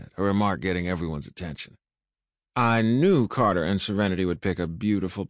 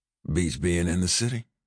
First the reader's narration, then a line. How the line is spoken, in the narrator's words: I whispered to Jordan